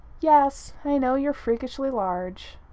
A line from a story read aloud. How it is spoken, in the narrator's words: Tony sighed